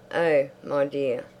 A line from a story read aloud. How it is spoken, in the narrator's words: Isabel laughed